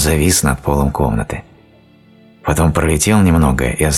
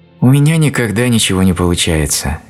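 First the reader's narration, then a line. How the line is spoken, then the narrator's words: Sad sigh. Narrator (Russian): печально вздохнула она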